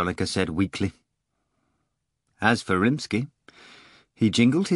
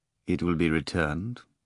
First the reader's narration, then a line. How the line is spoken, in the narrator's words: Rimsky replied quietly